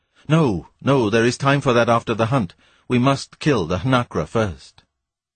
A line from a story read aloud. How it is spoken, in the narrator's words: It was in obedience to something like conscience that he exclaimed